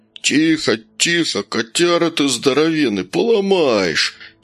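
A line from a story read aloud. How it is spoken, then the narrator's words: Groaning captain. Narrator (Russian): застонал капитан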